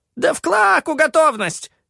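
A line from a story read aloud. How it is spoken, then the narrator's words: Shrieking. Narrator (Russian): взвизгнул Джигги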